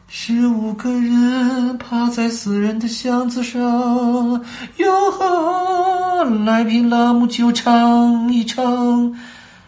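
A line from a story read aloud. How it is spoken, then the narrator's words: Faint, trembling, shrill singing. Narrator (Chinese): 一个细微的、带着颤音的声音尖声唱了起来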